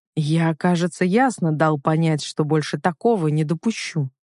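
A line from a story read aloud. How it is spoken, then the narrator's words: Icy, through clenched teeth. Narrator (Russian): процедил он ледяным тоном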